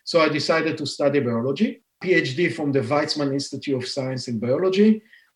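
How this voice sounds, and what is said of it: Israeli accent. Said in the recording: “You can hear from my accent that I'm not a Native American, born and raised in Israel.”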